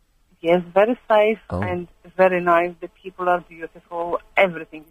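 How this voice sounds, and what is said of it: Foreign accent in English. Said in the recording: “where your accent's from ... I thought you were Greek. And then I thought, no, it's more Eastern European”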